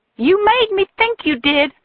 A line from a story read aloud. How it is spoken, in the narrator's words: shouted at him